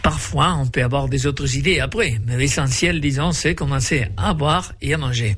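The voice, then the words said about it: Slight southern accent in French. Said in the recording (Catalan): “Nous sommes du Sud, c'est vrai, vous vous sentez par notre petit accent”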